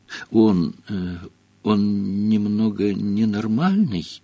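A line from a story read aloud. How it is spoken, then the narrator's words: Uncertain question. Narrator (Russian): неуверенно спросил Гарри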